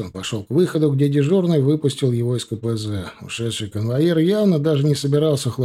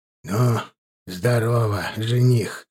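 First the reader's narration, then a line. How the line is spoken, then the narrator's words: Snorting. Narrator (Russian): хмыкнул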